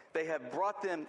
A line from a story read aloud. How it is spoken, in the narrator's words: Saul said